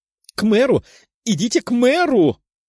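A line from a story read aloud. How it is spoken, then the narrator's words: Shouted. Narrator (Russian): Вновь прокричал он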